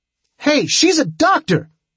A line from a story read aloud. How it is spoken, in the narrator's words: Tripp shouted